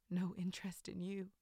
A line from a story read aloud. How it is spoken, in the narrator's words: I laughed softly